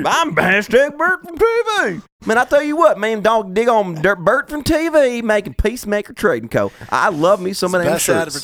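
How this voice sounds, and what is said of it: Impression of Bert Kuntz. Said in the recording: “that is the best impression they've ever heard of you ... I do not know if Bert's in the room with me or not if I close my eyes when you do that.”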